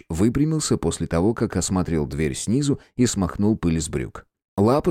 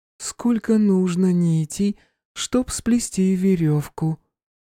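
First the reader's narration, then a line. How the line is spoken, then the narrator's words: Sung in thin voice. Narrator (Russian): пропела Оливия тонким голоском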